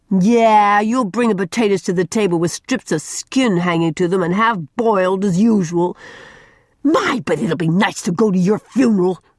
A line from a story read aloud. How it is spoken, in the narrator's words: shrieked Mary